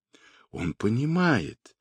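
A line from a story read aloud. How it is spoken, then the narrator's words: Quiet. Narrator (Russian): тихо сказала Хуахчин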